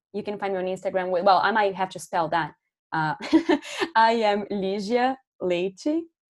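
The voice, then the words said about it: Brazilian accent. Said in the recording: “that's my Brazilian accent right there”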